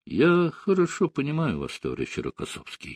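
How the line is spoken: Quiet. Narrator (Russian): сказал тихо Сталин

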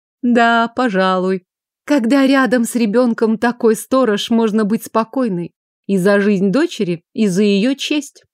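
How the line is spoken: Sighing. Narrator (Russian): вздохнула Лилиан

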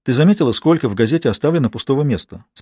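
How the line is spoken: Plain question. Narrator (Russian): спросила Берет

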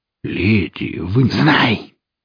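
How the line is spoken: Furious hiss. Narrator (Russian): преобразившись, с невероятной яростью прошипела девушка

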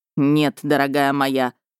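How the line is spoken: Angry male growl. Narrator (Russian): зло прорычал мужчина

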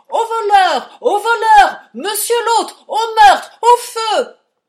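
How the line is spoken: Shouting and swearing. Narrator (French): je sonne toutes les sonnettes de la maison, et je crie, et je jure, et tempête

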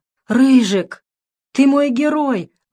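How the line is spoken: Exclamation. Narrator (Russian): воскликнул Дэвид

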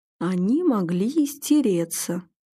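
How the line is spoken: Calm objection. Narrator (Russian): спокойно возразил Клим

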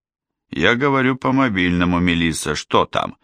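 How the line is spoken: Growl, muffled through wall. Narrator (Russian): прорычал Фрэнк с другой стороны стены

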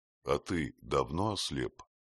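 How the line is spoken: Plain. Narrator (Russian): спросил Петр

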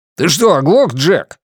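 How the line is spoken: Barking. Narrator (Russian): рявкнул Джонни

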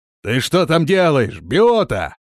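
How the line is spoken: Shout. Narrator (Russian): крикнул он

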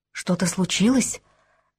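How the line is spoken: Whispering. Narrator (Russian): Также шепотом произнесла она в ответ

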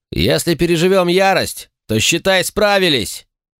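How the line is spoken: Shouted. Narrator (Russian): крикнул я эльфийке

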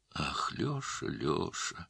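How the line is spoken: Sad old man. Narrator (Russian): грустно сказал старик

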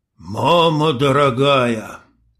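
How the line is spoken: Strained, forced out. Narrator (Russian): выдавил индеец

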